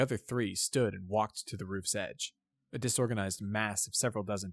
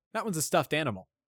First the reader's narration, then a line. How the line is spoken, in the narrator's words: said Soren